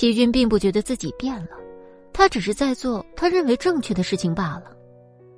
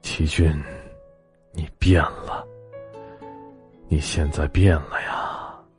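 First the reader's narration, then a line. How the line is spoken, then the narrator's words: Sighing lament. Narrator (Chinese): 不禁感叹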